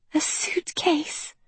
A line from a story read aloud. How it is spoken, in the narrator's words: whispered Princess Uma